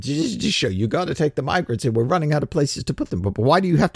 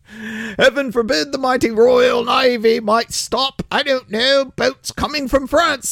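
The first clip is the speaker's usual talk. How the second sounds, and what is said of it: Poor put-on British accent. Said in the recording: “Apologies for my crappy British accent”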